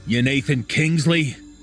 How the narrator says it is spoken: spat as curtly as possible

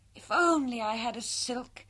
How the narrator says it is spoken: sighed Meg

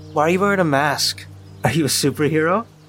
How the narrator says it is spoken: she asked with a mocking laugh

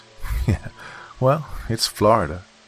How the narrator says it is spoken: With a sarcastic laugh, joked

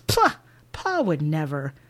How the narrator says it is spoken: Emily scoffs

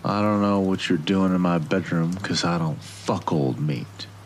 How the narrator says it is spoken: he slurred

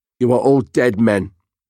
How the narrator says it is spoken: snapped

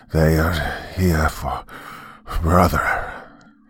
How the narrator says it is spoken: he muttered, his jaw nearly falling apart the entire time he tried to speak

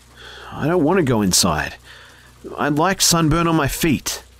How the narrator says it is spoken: shakily tell her

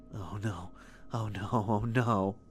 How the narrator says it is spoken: Claudia whispered over and over

